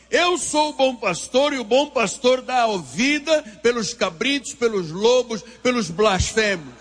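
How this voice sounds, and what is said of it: Speaks with a noticeable accent. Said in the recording (Portuguese): “você riu por causa do meu sotaque”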